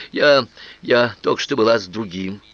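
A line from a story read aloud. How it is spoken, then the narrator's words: Rude blurt. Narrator (Russian): Чтобы выйти из положения, она грубо выпалила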